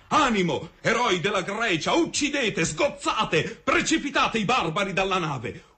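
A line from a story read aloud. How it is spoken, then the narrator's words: Yelling to comrades. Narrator (Italian): urlava la tride ai compagni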